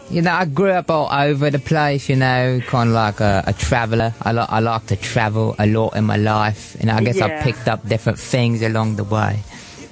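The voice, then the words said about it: British accent switching between posh and Cockney. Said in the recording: “he's flipping between a high London accent and a Cockney accent”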